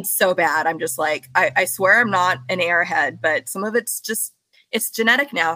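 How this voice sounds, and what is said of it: Southern California Valley Girl accent. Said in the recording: “I have a SoCal accent ... we all sound terrible ... Valley Girl”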